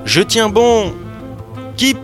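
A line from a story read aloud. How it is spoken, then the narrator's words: Shouting. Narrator (French): cria-t-il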